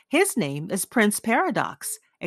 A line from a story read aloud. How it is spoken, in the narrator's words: exclaimed Dorian